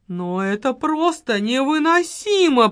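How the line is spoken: Woman's moan. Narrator (Russian): простонала женщина

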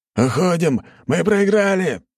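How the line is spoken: Shouted. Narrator (Russian): выкрикнул

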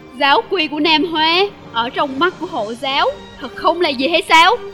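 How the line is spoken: Furious laughing speech. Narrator (Vietnamese): Y giận dữ đến mức chỉ có thể cười mà nói rằng

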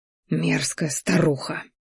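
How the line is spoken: Silent inner hiss. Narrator (Russian): шипел мысленно

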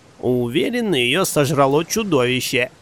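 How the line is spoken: Cheerful young man. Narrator (Russian): Веселым голосом предположил сидящий рядом с ней 20-летний парень

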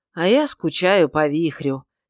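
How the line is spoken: Sigh after a pause. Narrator (Russian): через непродолжительную паузу вздохнул Вангар

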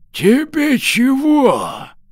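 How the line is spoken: Hoarse smoky old voice. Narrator (Russian): Старик прохрипел прокуренным голосом

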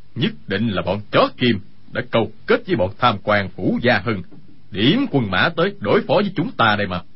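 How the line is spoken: Angry speech. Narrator (Vietnamese): Dương Sự Nhất tức giận nói

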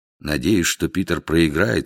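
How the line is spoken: Quiet. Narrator (Russian): сказал тихим голосом МакМертри

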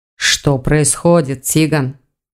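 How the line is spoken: Grim question. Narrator (Russian): мрачно спросил Элгар

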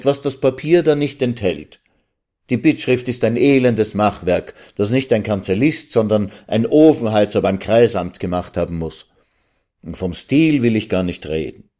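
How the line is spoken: Calling out. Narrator (German): rief der Student

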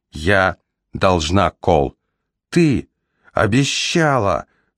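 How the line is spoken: Exclaiming, voice breaking. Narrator (Russian): Срывающимся тоном воскликнул он

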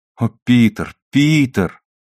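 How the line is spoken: Excited exclamation. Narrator (Russian): воскликнула она в волнении

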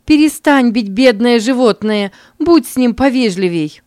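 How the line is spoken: Mother shouting loudly. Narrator (Russian): Мама громко крикнула Генри

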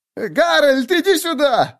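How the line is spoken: Shrill squeal. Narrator (Russian): взвизгнул человек

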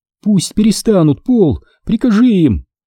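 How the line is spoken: Shouting. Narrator (Russian): закричала Фелисити

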